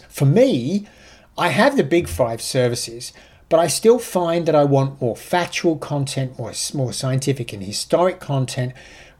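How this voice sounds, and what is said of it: British accent. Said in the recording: “as you can tell by my accent, I'm an ex-Brit”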